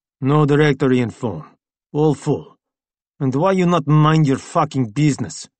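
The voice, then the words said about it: Foreign accent. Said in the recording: “the man with the foreign accent”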